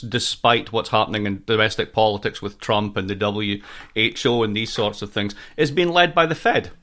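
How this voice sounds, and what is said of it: American accent. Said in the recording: “as you can hear from my accent, I'm a proud American citizen.”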